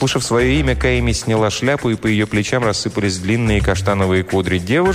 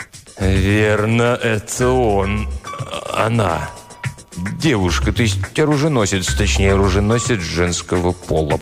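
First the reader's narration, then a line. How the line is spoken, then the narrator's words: Mumbling, hesitant. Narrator (Russian): промямлил Тристовер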